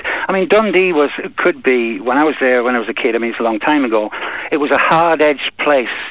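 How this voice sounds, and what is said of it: Slight Scottish accent. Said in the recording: “I think you're getting the accent a little bit from Scotland. ... I picked up a lot of the Scottish accent”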